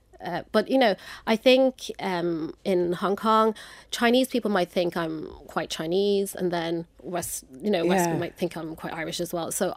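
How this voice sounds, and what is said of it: Hard-to-place mid-Atlantic accent. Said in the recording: “it's very hard to place you. Your accent is like mid-Atlantic.”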